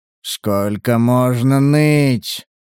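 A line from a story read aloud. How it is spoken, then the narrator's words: Grumbling. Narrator (Russian): проворчал охотник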